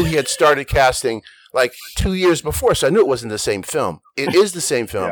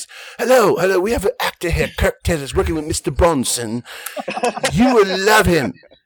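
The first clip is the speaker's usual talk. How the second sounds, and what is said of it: Put-on British accent. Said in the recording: “did a British accent ... So I got in with a British accent.”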